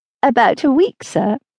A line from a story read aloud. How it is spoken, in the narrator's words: replied Catherine, trying not to laugh